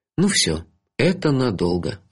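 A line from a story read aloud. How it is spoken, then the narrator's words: Sigh. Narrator (Russian): вздохнул я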